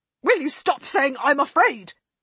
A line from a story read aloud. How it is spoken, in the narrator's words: rasped angrily